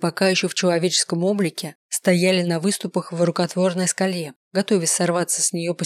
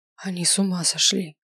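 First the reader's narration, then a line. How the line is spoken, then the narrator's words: Whisper. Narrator (Russian): прошептала Миранда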